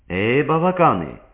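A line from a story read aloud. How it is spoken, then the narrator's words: Calling out. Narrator (Armenian): կանչեց Վիկտորիան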